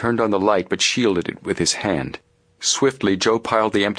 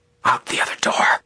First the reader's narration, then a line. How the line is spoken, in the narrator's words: Frank hissed into Joe's ear